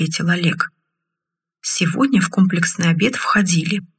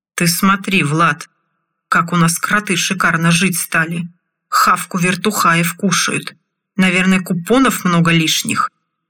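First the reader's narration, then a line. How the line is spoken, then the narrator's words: Deliberately loud. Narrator (Russian): Нарочито громко заговорил один из лесорубов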